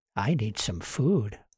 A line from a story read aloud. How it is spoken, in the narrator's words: she whispered to the jar in her pocket